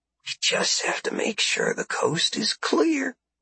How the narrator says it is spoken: whispered

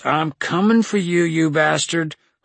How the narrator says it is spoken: I yelled

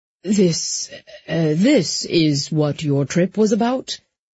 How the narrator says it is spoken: he said in a slightly dazed voice

